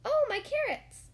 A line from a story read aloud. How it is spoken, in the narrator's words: cried Christopher Robin happily